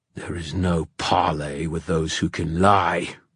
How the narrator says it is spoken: snarled the king

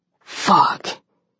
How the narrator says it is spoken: he breathed out

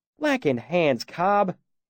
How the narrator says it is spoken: Carter said, his voice thick with reproach

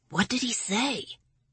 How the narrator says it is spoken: Lawrence whispered

